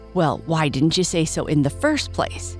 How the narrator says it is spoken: he snapped

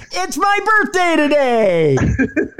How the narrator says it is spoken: yell

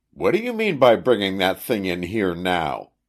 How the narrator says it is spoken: he exclaimed

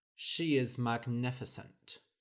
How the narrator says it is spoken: said Henry dryly

